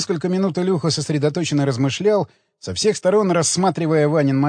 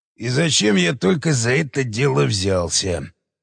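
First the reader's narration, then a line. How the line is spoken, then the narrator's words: Muttering. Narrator (Russian): бормотал он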